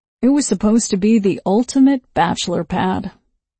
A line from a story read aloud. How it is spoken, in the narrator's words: he said sadly